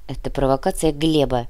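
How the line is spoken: Grumble. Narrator (Russian): буркнул Кортес

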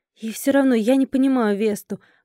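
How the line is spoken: Grumbled. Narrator (Russian): буркнула я

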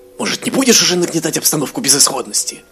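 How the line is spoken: Snapping retort. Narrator (Russian): огрызнулся Эзраэль

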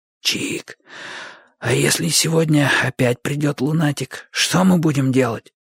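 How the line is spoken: Whispered question. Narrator (Russian): шепотом спросил Бочо

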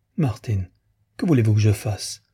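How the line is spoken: Trembling murmur. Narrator (French): murmura-t-elle, les lèvres tremblantes

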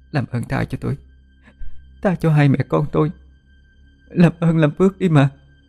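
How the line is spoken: Trembling pleading. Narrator (Vietnamese): Cô run rẩy nài nỉ

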